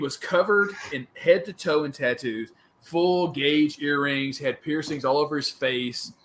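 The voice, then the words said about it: Southern US accent. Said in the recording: “he heard my accent. He's like, oh, you're from the South?”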